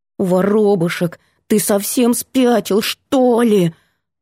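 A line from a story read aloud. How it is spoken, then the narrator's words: Growling into phone. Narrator (Russian): Прорычала в трубку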